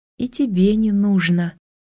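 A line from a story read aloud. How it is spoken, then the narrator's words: Soft. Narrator (Russian): мягко сказал Вендрик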